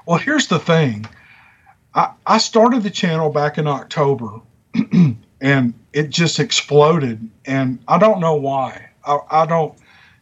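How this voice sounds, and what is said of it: Strong Southern accent. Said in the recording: “You can obviously tell that I have an accent ... a really bad Southern accent”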